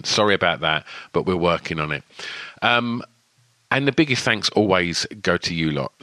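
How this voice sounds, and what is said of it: Speaks with a lisp and an accent. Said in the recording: “my lisp or my accent.”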